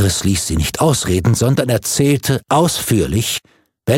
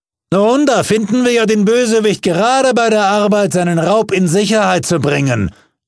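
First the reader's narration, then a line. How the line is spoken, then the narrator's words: Court official calling out. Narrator (German): rief der Kommissarius des Gerichts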